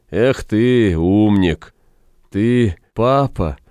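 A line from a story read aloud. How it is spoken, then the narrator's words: Strained, forced out. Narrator (Russian): выдавил из себя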